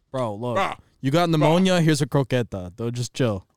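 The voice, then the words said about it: Imitates another person's voice. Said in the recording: “Is that your Carlos impression? ... Nah, kind of, sort of.”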